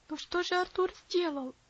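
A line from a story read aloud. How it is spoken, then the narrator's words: Pleading. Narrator (Russian): взмолился Герберт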